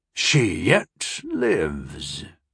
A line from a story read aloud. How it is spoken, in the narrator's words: grunted Varrigan